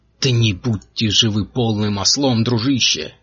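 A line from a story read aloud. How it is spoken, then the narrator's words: Irritated exclamation. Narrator (Russian): раздраженно воскликнул Винтер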